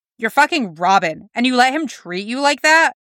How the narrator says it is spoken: Tim gasped

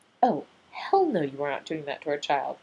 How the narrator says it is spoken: Rodney said

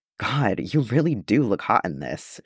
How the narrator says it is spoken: murmurs

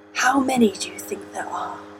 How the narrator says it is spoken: whisper into the ear

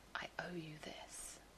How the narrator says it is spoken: Jack whispered, and in the vast space around them, the words went unheard

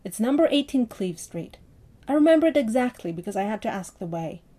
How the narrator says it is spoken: William grinned triumphantly and said

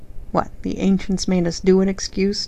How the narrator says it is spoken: John snorted

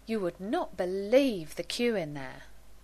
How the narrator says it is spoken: Gwen sighed

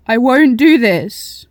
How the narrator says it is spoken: she screamed to the sky

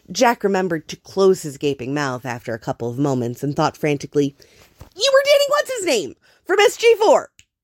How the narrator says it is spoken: he said triumphantly

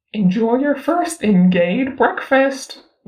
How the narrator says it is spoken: Ni Huaisang says brightly

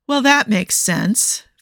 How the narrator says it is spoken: Phil said, sighing

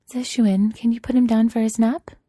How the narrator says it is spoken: Zhe Zhe asks, smiling sweetly

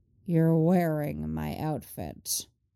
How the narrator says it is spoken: his older self growls

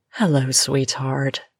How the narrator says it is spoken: she purrs

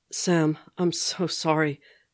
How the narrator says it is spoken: Steve was saying, his voice breaking

